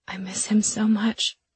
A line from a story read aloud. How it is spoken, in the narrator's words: I whispered